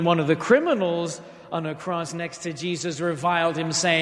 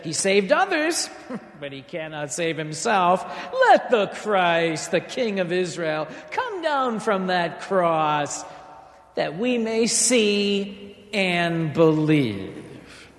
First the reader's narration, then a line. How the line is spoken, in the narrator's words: The chief priests with the scribes mocked him and said